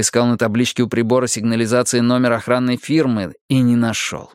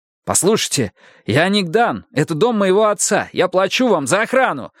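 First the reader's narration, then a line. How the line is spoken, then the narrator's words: Shouting into phone. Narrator (Russian): закричал я в трубку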